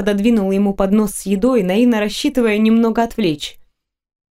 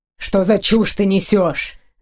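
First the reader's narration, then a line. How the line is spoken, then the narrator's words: Growling. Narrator (Russian): зарычал он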